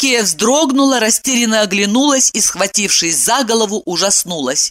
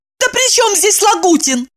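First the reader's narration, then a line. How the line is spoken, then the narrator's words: Exclaimed. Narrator (Russian): воскликнула Евдокия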